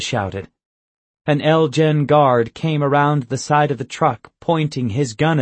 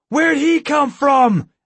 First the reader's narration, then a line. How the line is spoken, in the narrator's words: I shouted